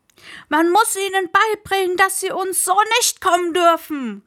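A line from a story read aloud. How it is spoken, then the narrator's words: Calling out. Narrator (German): rief ein anderer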